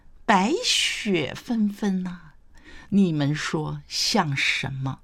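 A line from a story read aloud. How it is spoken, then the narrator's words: Smiling question. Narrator (Chinese): 谢安微笑问道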